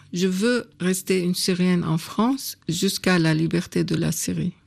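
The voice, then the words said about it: Non-native accent in French. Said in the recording (French): “je sais que j'ai un accent qui marque que je ne suis pas française”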